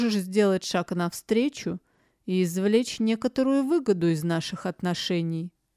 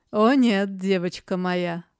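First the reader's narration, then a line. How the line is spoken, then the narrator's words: Short laugh. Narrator (Russian): хохотнул Верган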